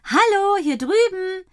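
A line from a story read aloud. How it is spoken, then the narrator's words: Calling out. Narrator (German): ruft Leni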